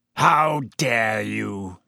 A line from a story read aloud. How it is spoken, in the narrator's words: He growled, sounding suddenly like the bear-sized dog he had been